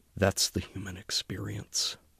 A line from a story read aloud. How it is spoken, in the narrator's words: whispered